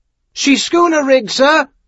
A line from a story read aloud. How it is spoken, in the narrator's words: Haskin shouted